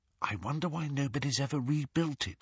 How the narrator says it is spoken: whispered Hermione

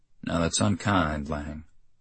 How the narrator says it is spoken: he said quietly

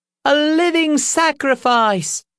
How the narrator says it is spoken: a rosy-cheeked lady cried out

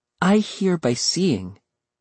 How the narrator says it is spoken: she replied

